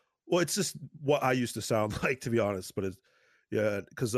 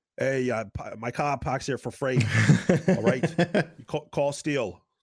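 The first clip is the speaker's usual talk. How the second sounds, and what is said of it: Put-on Boston accent. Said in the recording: “My lawyer, I would do a Boston accent. ... just like that. Perfect. Just a Boston accent.”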